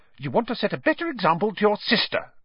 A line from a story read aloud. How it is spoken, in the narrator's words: snapped Mrs